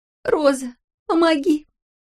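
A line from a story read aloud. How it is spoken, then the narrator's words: Sobbing. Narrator (Russian): рыдала Лени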